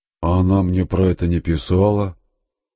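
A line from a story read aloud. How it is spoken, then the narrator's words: Dejected, crestfallen voice. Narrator (Russian): упавшим голосом проговорил Степан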